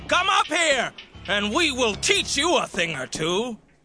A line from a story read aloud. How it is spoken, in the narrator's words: they yelled down to Jonathan and the soldier